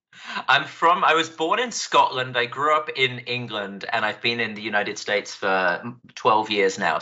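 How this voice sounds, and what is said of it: Mixed British accent with Scottish traces. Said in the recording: “you have a really unique accent ... my accent it's just a train wreck of different vowel sounds. So you'll hear it drift in and out. It's technically a British accent ... one of the most accessible Scottish accents”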